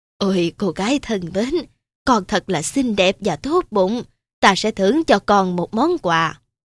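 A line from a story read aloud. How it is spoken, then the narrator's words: Old woman, gentle. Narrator (Vietnamese): bà cụ nhẹ nhàng bảo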